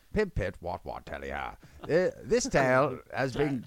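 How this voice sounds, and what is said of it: Put-on English accent. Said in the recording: “He might have an English accent.”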